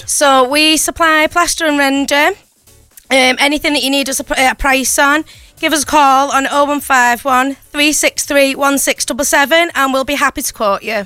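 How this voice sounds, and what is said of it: St Helens Merseyside English accent. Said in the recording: “what an accent this is ... This has got to be St. Helens ... she's not just from St. Helens, she's from Sint ... We love your accent.”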